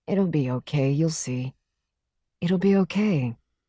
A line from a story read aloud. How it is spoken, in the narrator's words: said to her tenderly